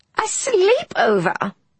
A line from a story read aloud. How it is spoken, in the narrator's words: She squealed finally